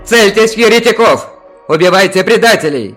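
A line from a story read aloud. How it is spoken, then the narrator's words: Shouted. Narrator (Russian): закричал он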